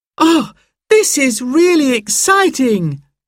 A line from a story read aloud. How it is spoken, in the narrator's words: cried Sarah